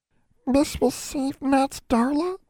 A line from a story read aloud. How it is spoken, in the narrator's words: Nat asked in a tiny voice